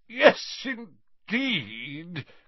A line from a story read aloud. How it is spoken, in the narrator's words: cried Slughorn a little thickly